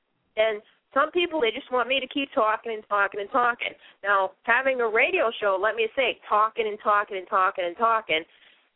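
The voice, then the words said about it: Boston accent. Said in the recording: “people do notice my accent ... I'm from Boston”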